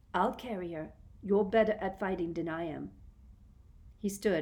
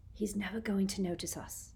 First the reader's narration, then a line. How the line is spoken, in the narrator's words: he whispered